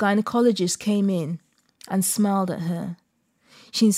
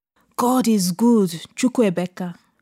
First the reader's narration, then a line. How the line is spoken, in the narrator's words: the older woman exclaimed